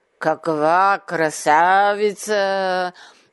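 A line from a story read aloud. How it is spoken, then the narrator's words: Snarling. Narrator (Bulgarian): Озъбил се Ох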